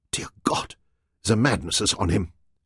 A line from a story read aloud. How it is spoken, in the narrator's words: Ava panted